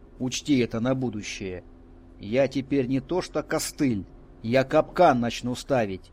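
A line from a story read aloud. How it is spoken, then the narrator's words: Belligerent exclamation. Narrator (Russian): воинственно воскликнул я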